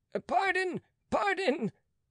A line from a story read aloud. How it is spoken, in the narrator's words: cried the unfortunate